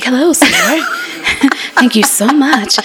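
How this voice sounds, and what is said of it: Put-on polite "white" voice. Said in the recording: “put on my white voice”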